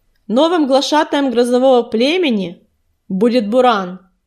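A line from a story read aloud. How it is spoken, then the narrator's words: Loud shout. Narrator (Russian): громко крикнул он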